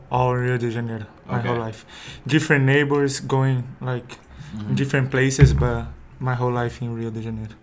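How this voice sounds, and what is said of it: Brazilian-accented English. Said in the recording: “obviously Brazilian with the accent. ... I have accent. ... it's not bad. I love the Brazilian accent.”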